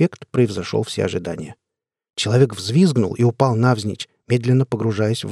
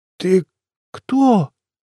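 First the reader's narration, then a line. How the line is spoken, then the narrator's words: Slurred, forced-out words. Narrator (Russian): выдавило из себя это чучело заплетающимся голосом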